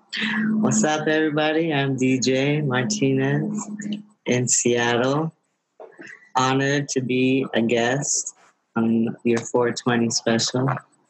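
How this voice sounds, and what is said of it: Slow, sexy voice. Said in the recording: “You have a sexy voice. It's all slow.”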